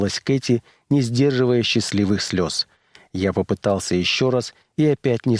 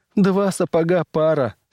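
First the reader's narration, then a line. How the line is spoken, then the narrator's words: Laughing while crying. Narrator (Russian): смеялась она и плакала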